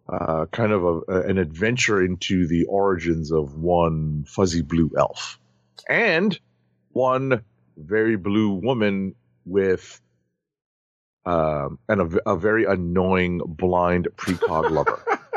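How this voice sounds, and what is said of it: Sick, under-the-weather voice. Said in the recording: “I'm a little under the weather, folks. You can hear it in my voice.”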